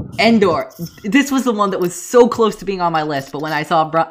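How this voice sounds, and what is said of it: Usual voice. Nothing is said of it.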